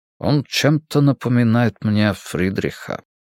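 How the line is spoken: Quiet. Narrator (Russian): тихо отвечает Виктор

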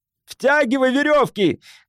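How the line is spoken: Shout. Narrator (Russian): крикнул Керон

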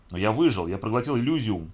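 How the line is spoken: Exclaiming. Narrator (Russian): воскликнул я

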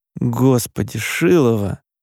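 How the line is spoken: Sigh. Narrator (Russian): вздохнул Димка

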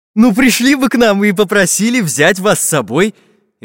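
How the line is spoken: Cheerful. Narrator (Russian): весело сказал Карандаш

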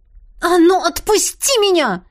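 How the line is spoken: Nearly shouting. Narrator (Russian): Почти кричала

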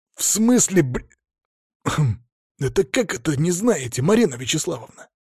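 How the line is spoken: Strained whisper. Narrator (Russian): наши голоса звучали очень громко, поэтому я старался шептать

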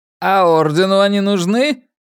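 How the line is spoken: Sarcastic question. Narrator (Russian): ехидно поинтересовался Джефф Питерс

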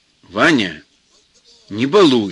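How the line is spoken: Stern mother. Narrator (Russian): строго говорит мать

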